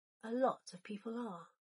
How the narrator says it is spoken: Draco whispered

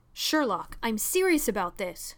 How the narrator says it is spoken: John snapped

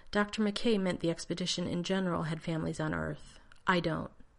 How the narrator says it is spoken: Keeping his voice even, John said

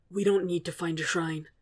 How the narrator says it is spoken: Zuko says hoarsely

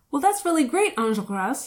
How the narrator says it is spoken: he blurted, at about twice the speed of normal conversation

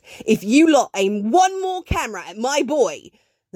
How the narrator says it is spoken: A voice from nearby snaps

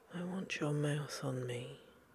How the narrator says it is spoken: John said hoarsely

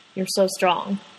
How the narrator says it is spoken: He says, quietly, gratefully

